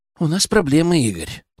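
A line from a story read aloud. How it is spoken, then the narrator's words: Quiet. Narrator (Russian): тихо сказал Арсений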